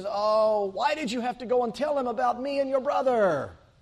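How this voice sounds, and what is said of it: Whiny old man, put-on Jewish accent. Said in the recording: “I hear this aged man of Jewish descent ... fiddler on a hot tin roof kind of Jewish accent ... this poor, whiny old Jewish man”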